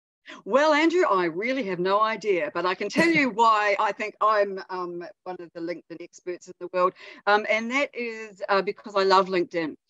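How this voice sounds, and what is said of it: New Zealand accent. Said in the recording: “from all the way in New Zealand ... we're gonna fall in love with your accent”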